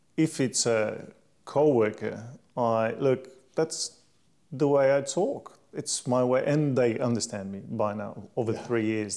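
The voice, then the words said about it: European accent. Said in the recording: “I'm from Europe, so pardon my accent”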